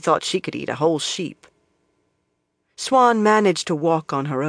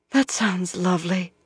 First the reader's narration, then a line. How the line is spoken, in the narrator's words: Moiraine breathed